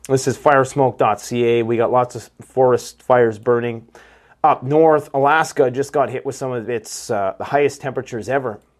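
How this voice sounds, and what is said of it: Rough, messed-up sounding voice. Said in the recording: “my voice is kind of messed up lately, because just the smoke is just making us sick up here”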